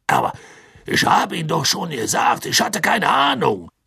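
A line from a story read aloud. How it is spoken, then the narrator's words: Serious call over crowd. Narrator (German): rief Bergmann mit ernster Miene über das Getuschel der Menge hinweg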